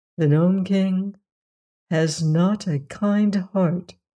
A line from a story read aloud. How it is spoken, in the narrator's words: said the Emperor sadly